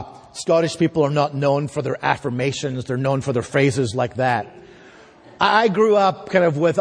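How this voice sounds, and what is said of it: Usual voice. Nothing is said of it.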